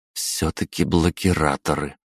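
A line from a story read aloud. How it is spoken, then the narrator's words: Through gritted teeth. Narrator (Russian): процедила Лиза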